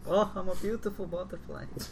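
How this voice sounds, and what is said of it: Put-on Russian accent. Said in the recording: “That was a Russian accent”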